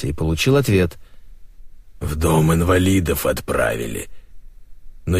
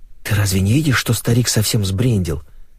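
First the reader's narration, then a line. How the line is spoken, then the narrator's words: Hurried whisper. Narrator (Russian): торопливо прошептала она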